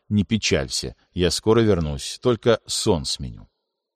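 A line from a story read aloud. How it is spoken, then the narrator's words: Gentle. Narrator (Russian): ласково добавил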